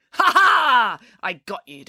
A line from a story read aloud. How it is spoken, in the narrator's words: declared Mum triumphantly